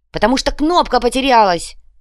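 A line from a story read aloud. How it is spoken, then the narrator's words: Irritated. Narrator (Russian): раздраженно ответил иголка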